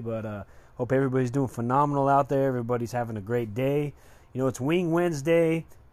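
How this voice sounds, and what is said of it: Slightly off voice from a cold. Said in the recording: “I am starting to catch a cold, so my voice is a little off today”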